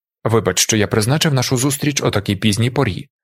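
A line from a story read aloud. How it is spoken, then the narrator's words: Plain. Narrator (Ukrainian): сказав Далінар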